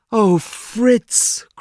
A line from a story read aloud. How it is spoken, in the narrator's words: cried his mother